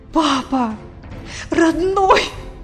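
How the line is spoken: Loud tearful exclamation. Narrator (Russian): Громко воскликнула, обливая его слезами

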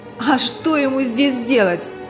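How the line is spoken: Loud, rude, sneering. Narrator (Russian): Со злой усмешкой, громко и грубо, ответила соседка

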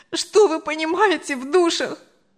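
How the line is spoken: Sobbing. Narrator (Russian): Анжела уже рыдала

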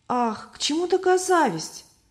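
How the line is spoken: Exclamation. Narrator (Russian): воскликнула Любовь

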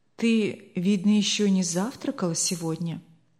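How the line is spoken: Quiet calm remark. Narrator (Russian): заметил хозяин все тем же тихим, спокойным тоном

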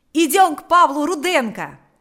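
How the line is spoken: Shouting. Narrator (Russian): закричал Панас

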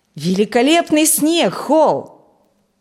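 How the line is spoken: Loud exclamation. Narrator (Russian): громко воскликнул Фрэнк

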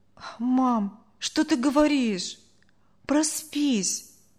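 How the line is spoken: Boy sighing. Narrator (Russian): вздохнул мальчик

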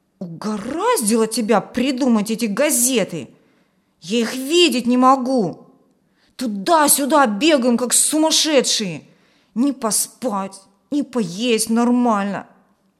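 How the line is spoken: Displeased grumbling. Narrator (Russian): Федя недовольно ворчал

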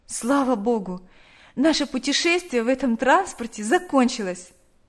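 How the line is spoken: Relieved sigh. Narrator (Russian): вздохнула Наташа

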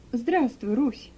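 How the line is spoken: Affectionate speech. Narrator (Russian): ласково проговорил

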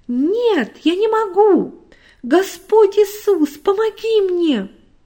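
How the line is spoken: Loud exclamation. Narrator (Russian): она громко воскликнула

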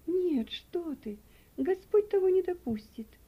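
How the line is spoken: Frightened exclamation. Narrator (Russian): воскликнула мать, побледнев еще больше

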